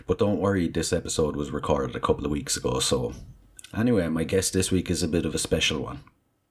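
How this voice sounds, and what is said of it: Hoarse, sore-throated voice. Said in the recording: “I have to apologise about my voice. I have a bit of a sore throat.”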